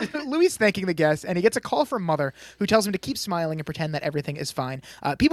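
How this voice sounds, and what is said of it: Usual voice. Nothing is said of it.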